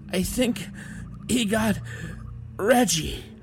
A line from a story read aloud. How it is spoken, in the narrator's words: one of them said, still gasping between words